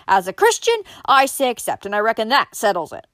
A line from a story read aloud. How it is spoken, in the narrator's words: Then suddenly he shouted